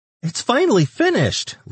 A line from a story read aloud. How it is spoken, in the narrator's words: Leanne squealed